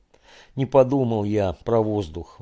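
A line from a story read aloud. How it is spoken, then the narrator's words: Sighing. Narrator (Russian): вздохнул Боря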